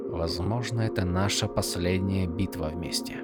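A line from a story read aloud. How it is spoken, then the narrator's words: Quiet. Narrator (Russian): негромко проговорил Адалин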